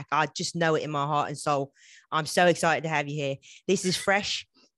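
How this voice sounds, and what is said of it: Put-on British accent, barely decent. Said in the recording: “otherwise known as So What If I Sound British, just a little bit ... this accent does not fall under that category ... It's barely decent on a good day. But it's mostly offensive.”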